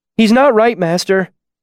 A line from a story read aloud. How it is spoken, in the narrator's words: Simon said, his voice shrill with worry